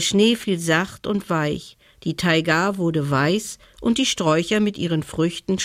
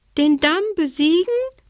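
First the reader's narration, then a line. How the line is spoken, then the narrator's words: Squeaky voice. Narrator (German): piepste die Haselmaus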